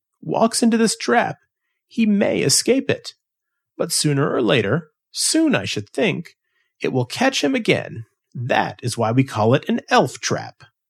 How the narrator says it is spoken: was laughing again

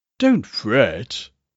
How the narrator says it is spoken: said coldly

